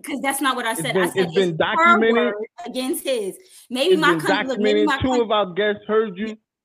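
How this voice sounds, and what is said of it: Country accent. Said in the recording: “maybe my country accent is coming out and y'all can't understand me.”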